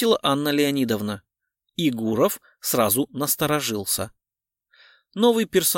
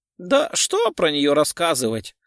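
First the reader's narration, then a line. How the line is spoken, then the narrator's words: Laughing. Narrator (Russian): рассмеялась Перфильева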